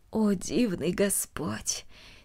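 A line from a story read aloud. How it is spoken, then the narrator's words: Quiet. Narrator (Russian): тихо произнесла она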